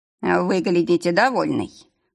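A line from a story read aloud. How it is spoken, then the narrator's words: Snorted. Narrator (Russian): хмыкнул Нарвин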